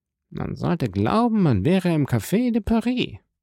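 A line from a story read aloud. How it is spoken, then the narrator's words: Murmured. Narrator (German): murmelte Danglars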